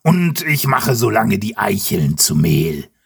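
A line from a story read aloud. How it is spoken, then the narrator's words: Grunted. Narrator (German): grunzt Eberhard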